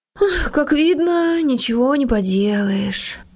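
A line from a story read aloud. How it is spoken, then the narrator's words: Sad sighing mutter. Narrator (Russian): Хенрик огорченно вздохнул и пробормотал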